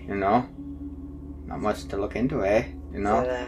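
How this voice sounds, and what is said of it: Weak attempt at Canadian accent. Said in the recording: “Canadian accent. It wasn't very good. ... It sounds a little Irish to me.”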